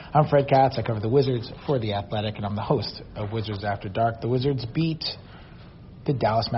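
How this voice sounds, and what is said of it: Usual voice. Nothing is said of it.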